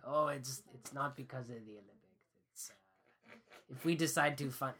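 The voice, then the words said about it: Impression of Jean Chrétien. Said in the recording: “that was an impression of Chrétien”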